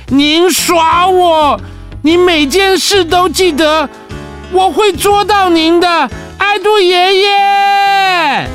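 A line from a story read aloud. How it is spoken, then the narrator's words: Calling out while running. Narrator (Chinese): 艾玛一路追着艾杜爷爷，一边喊着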